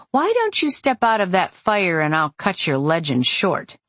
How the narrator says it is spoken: He laughed

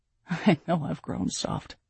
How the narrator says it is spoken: Aaron laughed

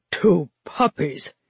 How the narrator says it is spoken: he said, his voice low in amusement

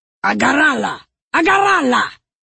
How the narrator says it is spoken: Moleface yelled to the others

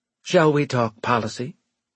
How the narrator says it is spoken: Deitch asked brightly

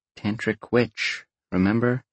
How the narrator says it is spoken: said in a very quiet voice

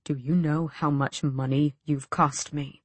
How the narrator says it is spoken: Aerobin asked softly

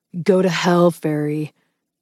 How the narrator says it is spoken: growled

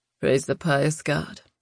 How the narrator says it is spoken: Ben murmured

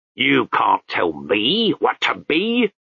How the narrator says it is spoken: Chaos roared

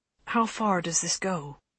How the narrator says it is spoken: Holston murmured

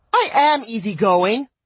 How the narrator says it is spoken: snapped in the least easygoing way possible

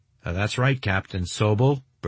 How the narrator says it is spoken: Burgess replied

